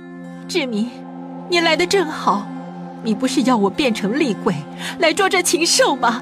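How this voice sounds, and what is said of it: Yaqin's voice through possessed man. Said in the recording (Chinese): “突然变成雅琴的声音说道”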